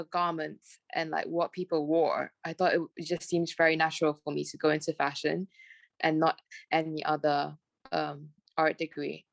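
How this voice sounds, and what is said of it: Smooth British-sounding accent. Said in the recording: “it's quite smooth and like it's like not Malaysian at all ... my friends always say I sound very British”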